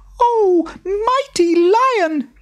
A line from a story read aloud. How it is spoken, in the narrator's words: he squeaked